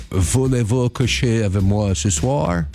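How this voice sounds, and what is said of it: French spoken with put-on English accent. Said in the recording (French): “C'est mon accent anglais.”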